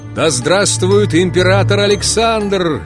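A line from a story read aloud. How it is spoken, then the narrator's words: Two men shouting. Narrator (Russian): закричали Палин и Зубов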